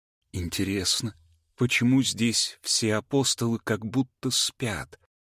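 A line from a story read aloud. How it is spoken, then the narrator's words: Young woman's pensive whisper. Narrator (Russian): задумчиво прошептала Анна, молодая темноволосая женщина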